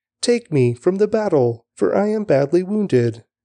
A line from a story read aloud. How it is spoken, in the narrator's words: He cried out to his men